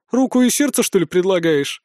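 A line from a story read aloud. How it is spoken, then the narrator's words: Burst out laughing. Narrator (Russian): расхохоталась Арчанка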